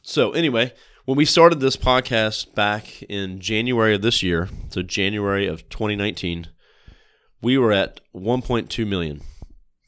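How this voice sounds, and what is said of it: Sick, rough-sounding voice. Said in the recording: “I'm a little bit sick this week, so my voice might sound a little crazy”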